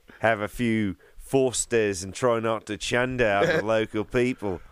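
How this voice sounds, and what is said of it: Put-on Australian accent, not good. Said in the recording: “the accent ... It's not a good accent, though.”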